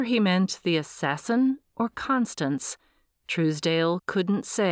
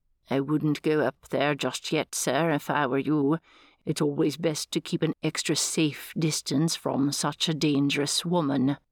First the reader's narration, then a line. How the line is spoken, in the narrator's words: Cawley murmured